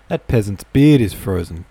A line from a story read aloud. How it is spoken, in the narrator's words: Kolya cried in a loud, provocative voice